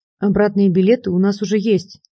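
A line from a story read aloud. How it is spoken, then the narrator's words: Through gritted teeth. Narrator (Russian): сказал сквозь зубы Капустин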